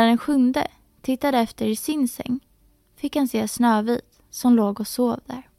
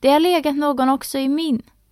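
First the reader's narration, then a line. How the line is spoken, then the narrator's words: Shouted. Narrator (Swedish): Den andra kom också springande och ropade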